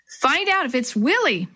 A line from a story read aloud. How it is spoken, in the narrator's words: Maria cried